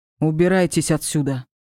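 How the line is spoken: Eerie creaky growl. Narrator (Russian): зарычал, издав именно тот жуткий скрипучий звук

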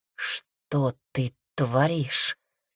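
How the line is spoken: Hoarse whisper. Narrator (Russian): охрипшим голосом прошептал друг

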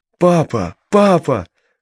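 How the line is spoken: Shouting while running up. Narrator (Russian): кричала она, подбегая

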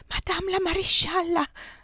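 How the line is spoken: Whisper. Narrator (Italian): sussurrò

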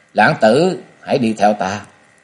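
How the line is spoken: Cold. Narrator (Vietnamese): lạnh lùng nói

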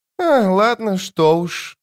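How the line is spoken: Sighing. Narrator (Russian): вздохнул нападавший

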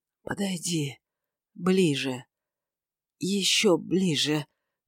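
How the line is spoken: Moaned with painful irritability. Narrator (Russian): простонал он с болезненной раздражительностью

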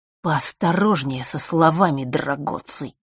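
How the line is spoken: Hiss. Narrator (Russian): прошипел Марк

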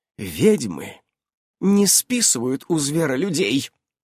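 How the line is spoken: Hissed through clenched teeth. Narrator (Russian): прошипела Ульянка сквозь стиснутые зубы

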